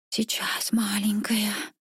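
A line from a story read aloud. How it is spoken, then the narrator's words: Whispering. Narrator (Russian): шептал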